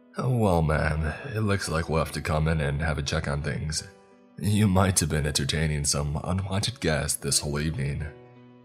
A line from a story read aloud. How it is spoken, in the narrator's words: Officer Blythe said half-jokingly